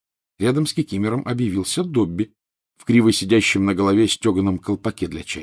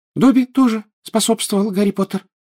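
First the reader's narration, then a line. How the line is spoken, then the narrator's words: Indignant squeak. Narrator (Russian): пропищал он, возмущенно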